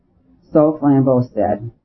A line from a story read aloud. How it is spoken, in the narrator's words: he replied with a sigh